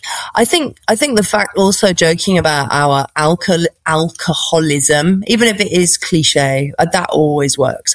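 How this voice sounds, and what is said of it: British BBC-style accent. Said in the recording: “my BBC accent ... I'm British”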